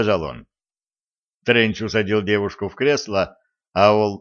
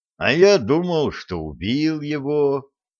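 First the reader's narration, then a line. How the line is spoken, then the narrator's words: Disappointed drawl. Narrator (Russian): разочарованно протянул он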